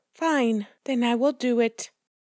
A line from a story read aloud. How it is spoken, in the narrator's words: The little red hen said with a sigh